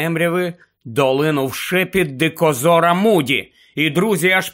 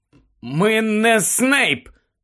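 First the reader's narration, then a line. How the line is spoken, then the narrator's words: Hoarse rasp. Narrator (Ukrainian): прохрипів Гаррі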